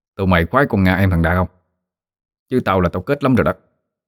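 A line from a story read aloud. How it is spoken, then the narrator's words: Low, barely audible voice. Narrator (Vietnamese): Thằng Lâm hạ giọng chỉ vừa đủ nghe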